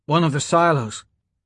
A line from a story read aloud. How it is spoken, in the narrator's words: she said